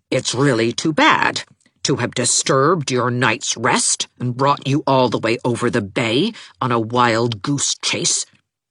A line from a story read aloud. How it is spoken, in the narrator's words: said Nora as icily as possible